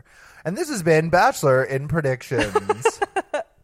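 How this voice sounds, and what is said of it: Announcer voice. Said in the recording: “there's my announcer voice.”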